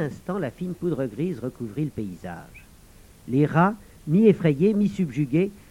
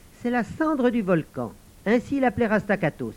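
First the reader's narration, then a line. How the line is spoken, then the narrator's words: Exclaimed. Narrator (French): s'écria Ravnala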